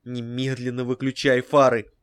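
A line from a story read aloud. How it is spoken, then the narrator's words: Hissed. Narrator (Russian): Он прошипел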